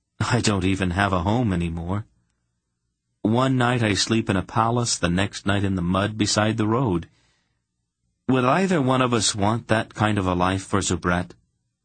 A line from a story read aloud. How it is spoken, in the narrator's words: he said it very calmly